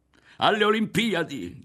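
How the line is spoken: Someone shouting. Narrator (Italian): gridò uno

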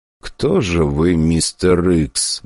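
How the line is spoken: Muttered. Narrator (Russian): бормотал Гагарин

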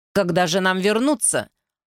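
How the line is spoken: Woman asking coldly. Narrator (Russian): холодно спросила женщина

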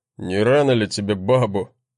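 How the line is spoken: Smirking grunt. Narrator (Russian): хмыкнул брат

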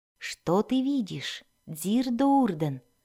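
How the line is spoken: Quiet question. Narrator (Russian): спросила она тихо не потому, что испытывала нежность к ребенку, а потому, что не хотела беспокоить мать, отдыхающую в кресле возле божества

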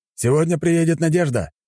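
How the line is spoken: Shouting. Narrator (Russian): крикнул Трофим

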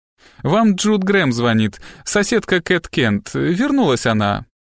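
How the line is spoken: Cheerful female voice. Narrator (Russian): бодро сообщил женский голос

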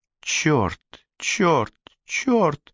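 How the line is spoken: Cursing through gritted teeth. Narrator (Russian): сквозь зубы ругалась Жанна

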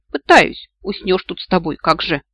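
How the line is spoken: Snorting. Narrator (Russian): фыркнула я

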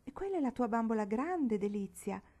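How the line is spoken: Wild laughing speech. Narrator (Italian): disse la signora della Garda, ridendo un po' selvaggiamente per averla pizzicata

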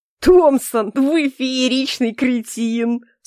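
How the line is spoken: Groaning through laughter. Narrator (Russian): сквозь смех простонал Эльфорта

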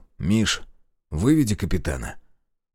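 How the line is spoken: Whisper. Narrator (Russian): шепнул

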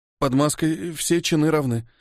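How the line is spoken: Hoarse rasp. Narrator (Russian): прохрипел я

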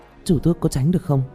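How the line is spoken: Frightened. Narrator (Vietnamese): Tạ Vũ Tình bên này sợ hãi nói

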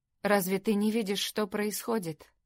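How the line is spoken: Softer questioning tone. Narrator (Russian): спросил Дэн более мягким тоном

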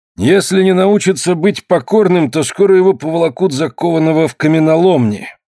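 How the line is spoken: Gloomy grumble. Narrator (Russian): угрюмо проворчал худой кузнец

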